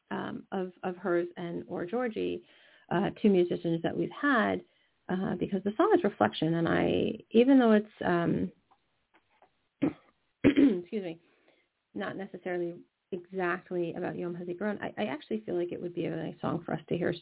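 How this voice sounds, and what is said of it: Hoarse, fading voice. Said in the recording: “I may have to go locate the cough drops again, because I seem to be losing my voice.”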